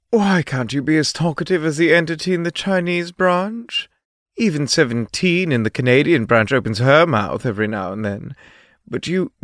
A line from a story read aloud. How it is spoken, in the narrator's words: The scientist sighed and said